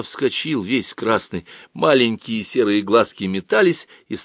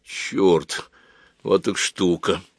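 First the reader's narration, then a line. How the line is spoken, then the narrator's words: Muttered. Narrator (Russian): пробормотал Женя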